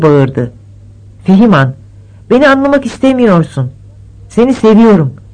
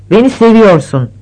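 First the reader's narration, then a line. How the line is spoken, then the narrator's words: Plain. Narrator (Turkish): dedi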